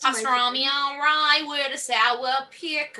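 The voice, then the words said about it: Exaggerated New York accent. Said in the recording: “an over-exaggerated New York accent.”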